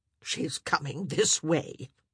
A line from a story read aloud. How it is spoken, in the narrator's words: she muttered